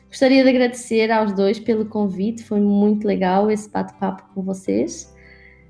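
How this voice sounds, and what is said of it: European Portuguese accent. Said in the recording (Portuguese): “é uma delícia escutar o sotaque português também”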